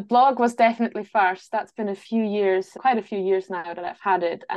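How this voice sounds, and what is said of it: Non-native speaker with Scottish accent. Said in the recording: “You sound like you've got a Scottish accent... They can hear the Scottish accent, but they can also hear that it's not a native accent”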